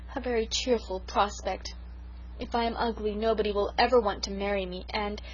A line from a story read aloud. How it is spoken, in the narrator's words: poor Sarah sighed